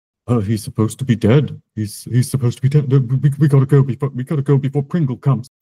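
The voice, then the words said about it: Deep voice filled with dread. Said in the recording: “deep voice that, with a 16, you can tell is filled with a certain amount of dread”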